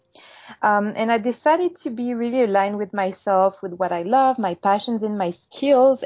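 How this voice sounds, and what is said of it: Slight French accent. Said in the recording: “you're going to hear a little accent, probably. I'm French. I'm from Paris.”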